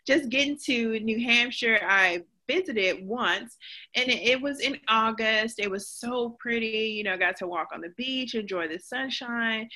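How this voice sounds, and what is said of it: Slight Southern US accent. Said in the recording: “you have a little bit of that Southern accent still, the flavor, that tone is still there”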